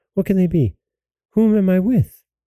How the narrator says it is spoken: she cried

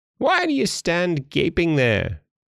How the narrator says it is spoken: cried the dwarf, and his ashen gray face became copper red with rage

